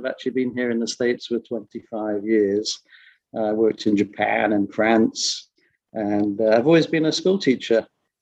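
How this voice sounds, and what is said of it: English accent. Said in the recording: “as you can hear from my accent, I'm originally from England”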